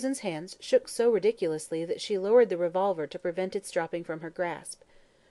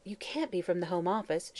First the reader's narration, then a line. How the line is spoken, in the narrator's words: she muttered